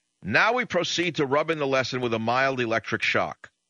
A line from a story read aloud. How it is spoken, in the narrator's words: the director shouted